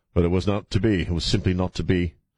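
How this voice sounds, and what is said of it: Contrived British accent. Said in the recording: “speaking suddenly in a contrived British accent”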